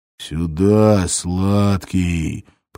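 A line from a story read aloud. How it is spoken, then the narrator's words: Terrifying hoarse voice. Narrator (Russian): прохрипел страшным голосом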